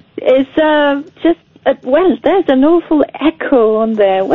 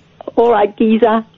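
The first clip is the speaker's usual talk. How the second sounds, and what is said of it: Put-on Cockney accent. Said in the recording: “can you do, like, a Cockney accent for us?”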